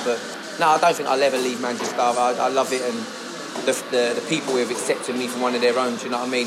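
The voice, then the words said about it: Southern English accent. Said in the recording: “You just sound southern”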